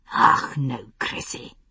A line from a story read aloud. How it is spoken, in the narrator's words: came a hissed whisper from behind him